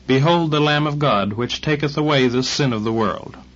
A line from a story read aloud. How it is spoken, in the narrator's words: John cried